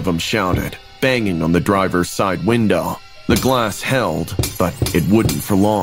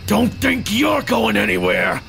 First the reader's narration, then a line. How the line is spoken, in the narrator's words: another voice growled